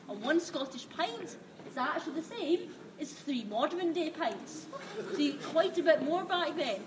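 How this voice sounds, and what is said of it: Strong Scottish accent, very fast. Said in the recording (French): “bien avec un bon accent écossais... Par moments, c'était assez compliqué de la comprendre. Elle parlait très très vite en plus.”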